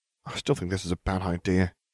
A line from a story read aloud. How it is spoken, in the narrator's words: he muttered